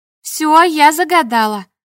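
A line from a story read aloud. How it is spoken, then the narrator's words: Joyful declaration. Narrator (Russian): радостно заявила Настя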